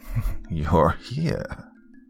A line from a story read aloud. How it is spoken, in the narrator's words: she cackled